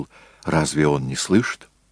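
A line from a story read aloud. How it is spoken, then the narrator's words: Whispered question. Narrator (Russian): Джессон шепотом спросил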